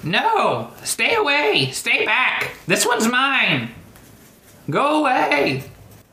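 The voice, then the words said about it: Old man character voice. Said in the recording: “you were using your old man voice”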